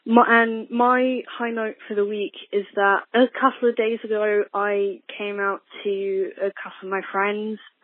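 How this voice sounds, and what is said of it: London English accent. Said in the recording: “I'm from London, England, in case you couldn't tell by the accent.”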